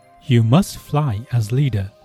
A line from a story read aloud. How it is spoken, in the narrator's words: they said